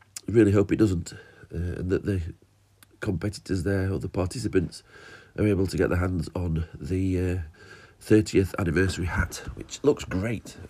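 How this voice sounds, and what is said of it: Voice with a cold coming on. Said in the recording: “I've got a bit of a cold coming on, as you can probably tell.”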